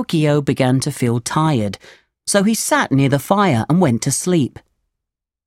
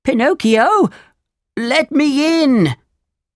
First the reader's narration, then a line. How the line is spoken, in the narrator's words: Geppetto cried